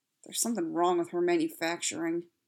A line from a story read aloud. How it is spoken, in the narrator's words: Joe mumbled again